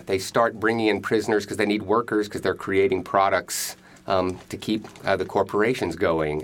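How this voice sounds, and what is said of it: Slight Texan accent. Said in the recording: “I'm hearing a little accent in your voice ... both ... and I are from Texas”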